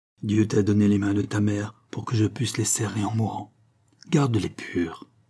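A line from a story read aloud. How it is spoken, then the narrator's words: Murmured. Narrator (French): murmura-t-il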